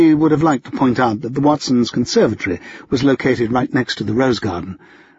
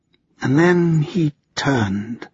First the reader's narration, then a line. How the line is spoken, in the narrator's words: Hermione said, her voice growing soft